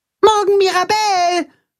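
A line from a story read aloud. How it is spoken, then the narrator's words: Calling after someone. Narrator (German): ruft Max ihr nach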